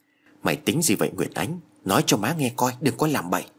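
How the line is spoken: Soft worried question. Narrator (Vietnamese): bà hỏi khẽ

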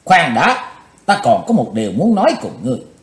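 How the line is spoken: Cold loud shout. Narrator (Vietnamese): Chí Tôn lạnh lùng quát lớn

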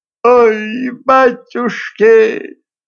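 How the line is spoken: Moaning, slightly calmer. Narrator (Russian): застонала щука, но уже чуть спокойнее

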